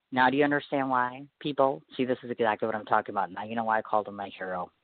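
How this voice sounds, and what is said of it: Choked-up emotional voice. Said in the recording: “I got a little choked up there”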